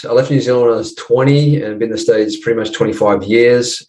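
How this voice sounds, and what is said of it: New Zealand accent. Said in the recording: “You got a bit of an accent, which is not an American accent. ... I'm just across the ditch there, mate, in New Zealand.”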